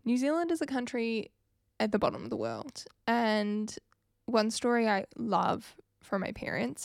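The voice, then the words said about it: New Zealand accent. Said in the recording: “if you couldn't pick up from my accent, I am from New Zealand.”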